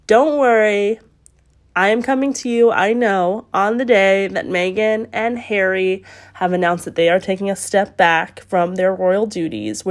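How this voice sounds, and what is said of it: Sick-sounding voice. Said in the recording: “as you can hear in my voice, I'm sick.”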